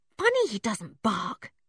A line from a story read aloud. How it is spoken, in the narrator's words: said Dick, also in a whisper